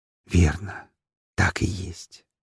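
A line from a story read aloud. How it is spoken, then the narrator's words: Happy whisper. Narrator (Russian): счастливо прошептал он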